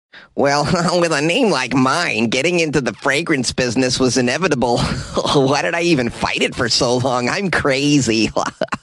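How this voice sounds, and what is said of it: Poor impression, nerdy voice. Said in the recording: “not a great Elon Musk impression ... it is an impression of a nerd”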